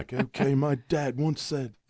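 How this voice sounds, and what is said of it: Put-on British accent. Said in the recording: “he's got a British accent.”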